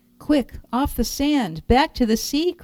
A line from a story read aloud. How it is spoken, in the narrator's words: cried the snail